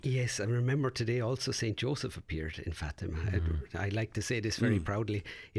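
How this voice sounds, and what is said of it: Irish accent. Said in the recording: “I don't know if you know from my accent, dear listeners, where I'm from, but there's a place called Knock in Ireland”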